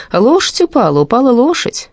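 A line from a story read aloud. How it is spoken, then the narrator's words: Laughing. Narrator (Russian): смеялся Кузнецкий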